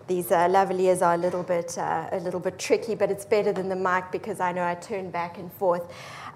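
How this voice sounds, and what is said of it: Brooklyn New York accent. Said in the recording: “as you'll be able to tell from her accent, she was born and grew up in Brooklyn, New York.”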